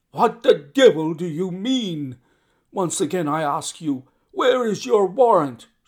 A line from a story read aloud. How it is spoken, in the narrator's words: shouted the furious Peters